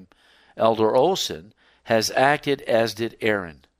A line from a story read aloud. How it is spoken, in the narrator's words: Ellen White to exclaim